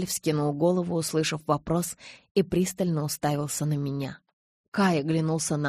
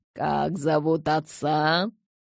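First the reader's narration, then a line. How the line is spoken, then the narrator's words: Barked through gritted teeth. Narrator (Russian): скрежеща зубами рявкнул Кай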